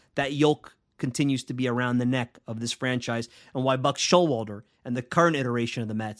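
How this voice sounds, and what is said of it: Speaks with a noticeable accent. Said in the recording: “you guys are laughing at my accent, I think I said it pretty well”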